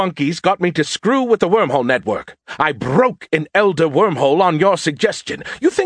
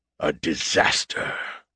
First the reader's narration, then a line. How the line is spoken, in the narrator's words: Erkan said under his breath